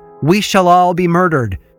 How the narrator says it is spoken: heard Bridget shout from the tap room

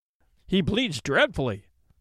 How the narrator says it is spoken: exclaimed Bertie

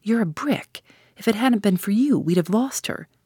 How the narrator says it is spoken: cried Tuppence

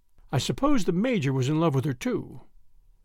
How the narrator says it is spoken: he said with a sigh

